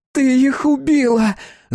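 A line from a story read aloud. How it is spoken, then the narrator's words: Piercing woman's scream. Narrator (Russian): закричала женщина, и звуки ее голоса впились в мозг, как рыболовные крючья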